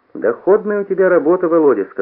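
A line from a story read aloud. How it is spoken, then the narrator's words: Plain. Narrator (Russian): сказал Лука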